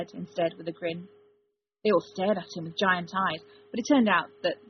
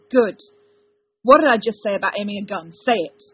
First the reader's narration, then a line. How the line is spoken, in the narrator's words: he barked